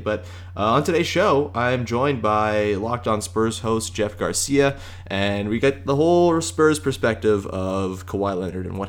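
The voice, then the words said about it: Tired, strained voice. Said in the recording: “I'm tired and I talked too much yesterday, so my voice is kind of evading me today.”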